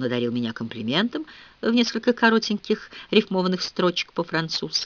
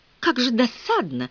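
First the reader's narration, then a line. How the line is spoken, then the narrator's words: Exclamation. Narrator (Russian): воскликнула я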